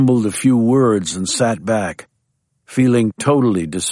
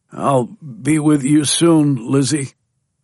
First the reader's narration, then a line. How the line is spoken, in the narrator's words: he said in a halting voice